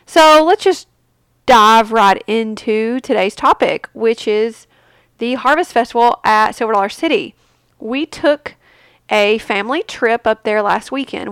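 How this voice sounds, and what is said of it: Congested, muffled, nasal voice. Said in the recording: “excuse my cold. I either have a cold or allergies ... my voice is going to be muffled by, it's going to be more nasally than normal”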